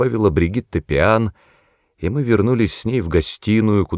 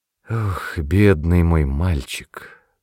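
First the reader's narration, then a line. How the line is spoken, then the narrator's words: Sighing. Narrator (Russian): вздохнула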